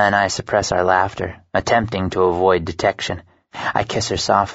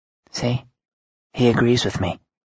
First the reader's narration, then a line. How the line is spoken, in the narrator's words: whisper